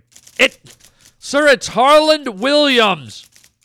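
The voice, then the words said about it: Yelling, loud voice. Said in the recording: “why are you yelling?”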